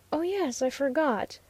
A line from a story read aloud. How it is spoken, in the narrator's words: murmured the Oriental lady